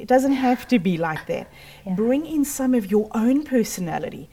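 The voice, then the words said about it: South African accent. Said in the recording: “the accent is actually South African. So I'm born and bred South Africa, Cape Town”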